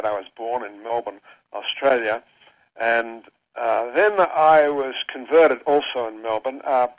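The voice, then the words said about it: Australian accent. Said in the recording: “I'm Australian, and my accent reveals that.”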